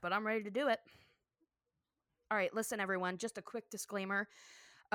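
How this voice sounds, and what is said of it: Out of breath. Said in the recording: “I'm already out of breath”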